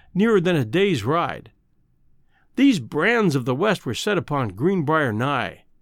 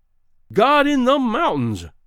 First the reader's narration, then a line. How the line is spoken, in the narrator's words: cried Greenbrier